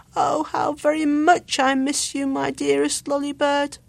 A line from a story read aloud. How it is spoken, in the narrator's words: he cried sadly